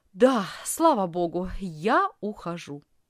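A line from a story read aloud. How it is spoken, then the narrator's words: Plain. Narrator (Russian): ответила она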